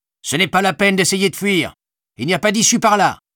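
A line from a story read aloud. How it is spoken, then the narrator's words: Soldier shouting. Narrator (French): cria l'un des soldats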